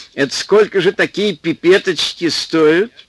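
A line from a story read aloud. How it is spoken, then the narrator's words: Cheerful question. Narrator (Russian): спросил весело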